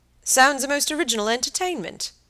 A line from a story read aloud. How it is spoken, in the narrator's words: he exclaimed, and laughed in his pleasant way